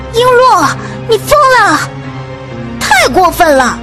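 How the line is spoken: Many women shrilly scolding. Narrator (Chinese): 尖叫声四起，宫女儿们一个个 七嘴八舌地骂道

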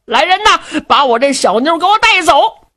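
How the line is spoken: Shouting orders. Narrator (Chinese): 他就冲着手下人喊

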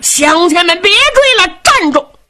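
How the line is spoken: Loud shouting. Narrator (Chinese): 张德禄高声喊嚷

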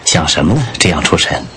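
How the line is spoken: Soft question. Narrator (Chinese): 玄灵 轻声问

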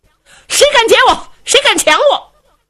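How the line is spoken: Shouting. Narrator (Chinese): 喊

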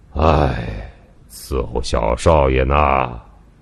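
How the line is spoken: Sighing. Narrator (Chinese): 明楼叹道

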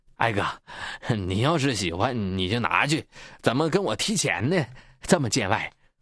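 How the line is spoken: Awkward feigned laugh. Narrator (Chinese): 二地主继续装糊涂，尴尬地笑着

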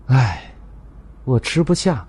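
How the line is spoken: Sighing. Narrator (Chinese): 明镜摇头叹气

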